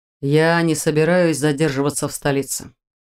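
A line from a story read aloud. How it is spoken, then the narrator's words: Calm objection. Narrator (Russian): спокойно возразил генерал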